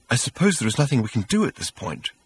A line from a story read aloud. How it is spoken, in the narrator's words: asked Arthur nervously